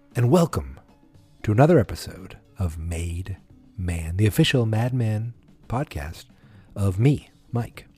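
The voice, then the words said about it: Quiet, smooth radio-announcer voice. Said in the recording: “I might be a little quieter than usual ... I can't be too loud ... my silky NPR voice”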